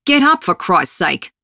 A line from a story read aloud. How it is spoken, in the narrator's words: he barks